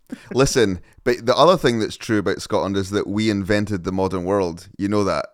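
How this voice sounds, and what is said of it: Scottish accent. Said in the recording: “talking to someone with a Scottish accent ... having this accent”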